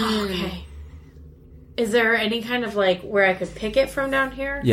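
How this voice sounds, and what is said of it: Usual voice. Nothing is said of it.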